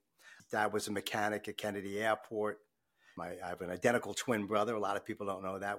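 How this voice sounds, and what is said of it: New York accent. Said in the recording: “In case you couldn't tell from my accent, I'm not originally from the Southeast in Georgia where we're at. I'm a Long Islander, a New Yorker.”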